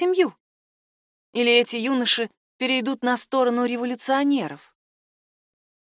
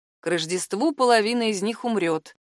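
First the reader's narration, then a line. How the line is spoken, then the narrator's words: Gloomy prediction. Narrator (Russian): мрачно предсказал Жан-Себастьян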